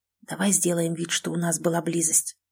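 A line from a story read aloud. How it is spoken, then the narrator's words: Conspiratorial whisper. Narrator (Russian): вдруг предложил, заговорщически зашептав мне на ухо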